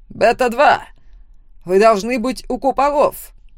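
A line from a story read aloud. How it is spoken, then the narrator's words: Barked. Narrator (Russian): Рявкнул на меня высокий стихийник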